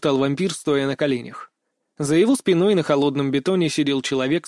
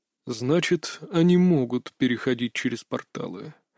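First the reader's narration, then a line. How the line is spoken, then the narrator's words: Quiet. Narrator (Russian): тихо проговорил владыка вампиров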